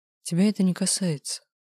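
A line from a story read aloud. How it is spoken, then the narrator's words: Weary retort. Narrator (Russian): устало парировал он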